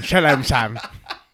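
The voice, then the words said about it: Imitates another person's voice. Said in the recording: “my Olivia Colman impression.”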